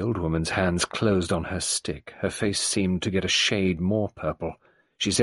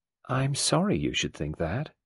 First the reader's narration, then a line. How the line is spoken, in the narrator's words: The younger woman replied evenly